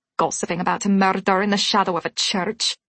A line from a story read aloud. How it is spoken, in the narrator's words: she muttered